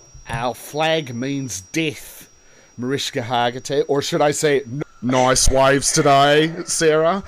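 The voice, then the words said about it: Put-on Australian accent. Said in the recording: “a man currently trapped in an Australian accent”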